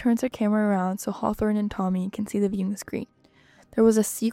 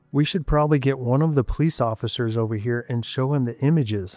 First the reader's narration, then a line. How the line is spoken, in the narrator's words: Hawthorne says